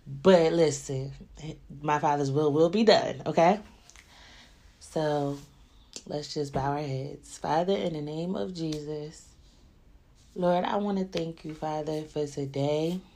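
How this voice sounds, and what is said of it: Congested, stuffy-nosed voice. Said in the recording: “I might be a little stuffy nose. My voice might sound a little weird.”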